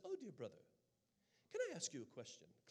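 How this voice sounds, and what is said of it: British accent. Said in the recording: “her British accent”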